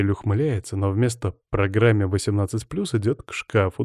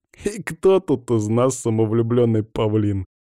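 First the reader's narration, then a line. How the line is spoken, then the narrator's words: Squeezed out through laughter. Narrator (Russian): сквозь смех выдавливаю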